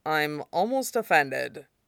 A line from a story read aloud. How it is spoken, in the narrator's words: he said dryly